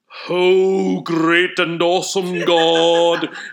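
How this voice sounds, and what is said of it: Put-on British accent, prayerful tone. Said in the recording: “his gift is a British accent or something... it was a British accent”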